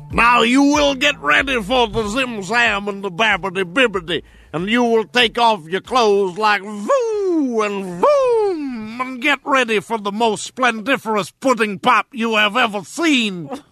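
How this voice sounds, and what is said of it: Bill Cosby impression. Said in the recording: “my Bill Cosby impersonation ... my Fat Albert”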